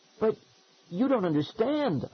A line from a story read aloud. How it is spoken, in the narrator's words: I sputtered